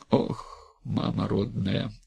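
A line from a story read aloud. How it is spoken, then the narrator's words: Breathless exclamation. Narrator (Russian): выдохнула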